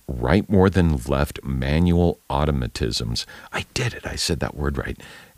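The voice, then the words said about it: Hoarse, soft, sore voice. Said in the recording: “my voice is kind of hoarse ... it's kind of soft and sore”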